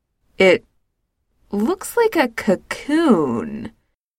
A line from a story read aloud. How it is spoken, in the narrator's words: George says slowly